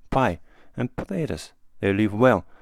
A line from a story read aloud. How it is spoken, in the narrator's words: he sighed